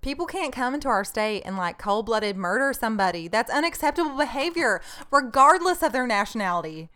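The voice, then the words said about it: Imitates another person's voice, Southern drawl. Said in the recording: “I'll give it a little southern. ... I'll give it like a good southern ... Drawl.”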